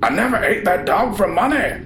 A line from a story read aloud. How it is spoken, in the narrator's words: screamed